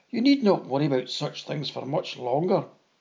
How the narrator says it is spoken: I laughed and declared

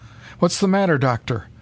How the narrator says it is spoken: he demanded anxiously

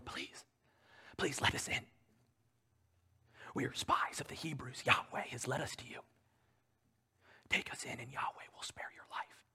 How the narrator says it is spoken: men whisper through the cracks in the door

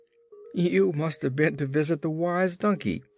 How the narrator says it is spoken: said Scraps, laughing so merrily

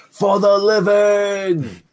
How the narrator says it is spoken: he yells out

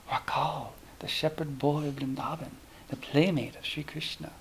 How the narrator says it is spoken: Sri Ramakrishna was deeply excited and muttered to himself

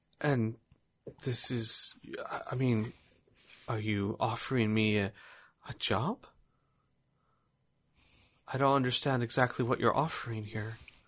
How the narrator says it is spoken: hesitantly she says

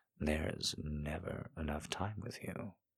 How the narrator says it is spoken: he breathed into my chest

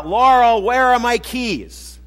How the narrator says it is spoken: I holler out

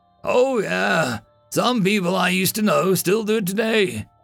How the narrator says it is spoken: the old man chuckled

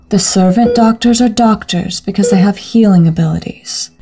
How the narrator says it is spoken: Ensley said in her typical mothering tone

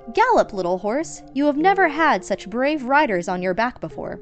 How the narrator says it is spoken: They called out

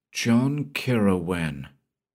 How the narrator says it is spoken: softly whispered Rolock

